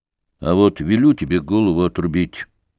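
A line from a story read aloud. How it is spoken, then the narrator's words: Boy's muffled voice. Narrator (Russian): проговорил мальчик глуховатым голосом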